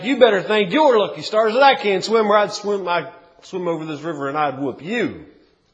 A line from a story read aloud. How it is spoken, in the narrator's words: Clarence, Rufus would holler back